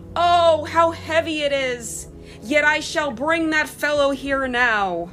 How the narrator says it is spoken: the dead woman cried out loudly

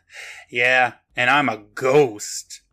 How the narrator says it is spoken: The man gives a little chuckle and says

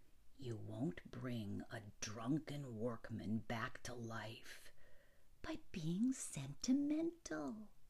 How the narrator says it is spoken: she said softly

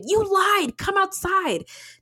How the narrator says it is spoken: He shouted

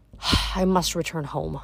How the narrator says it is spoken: Athena murmured

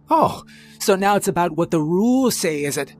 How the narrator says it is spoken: Croft snarled

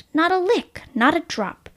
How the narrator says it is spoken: he snapped

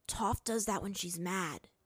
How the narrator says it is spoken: Aang whispered to him

